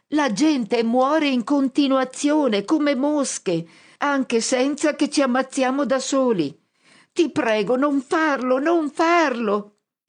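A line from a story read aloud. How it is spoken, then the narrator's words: Screaming at full voice. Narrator (Italian): Io grido a squarciagola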